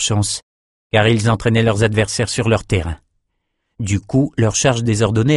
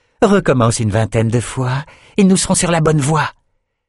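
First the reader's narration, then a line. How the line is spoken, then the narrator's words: Hissing with rage. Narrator (French): Sifflant de rage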